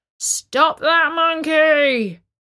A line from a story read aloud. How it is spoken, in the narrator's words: Before a policeman could shout